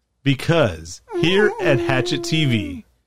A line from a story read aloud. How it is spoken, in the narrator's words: the DEB chuckles